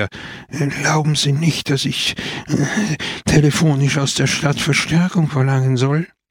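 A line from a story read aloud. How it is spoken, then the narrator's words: Stuttering. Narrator (German): stotterte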